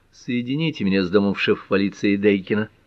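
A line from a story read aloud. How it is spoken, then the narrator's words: Quiet, close to microphone. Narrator (Russian): тихо проговорил, прижав губы к микрофону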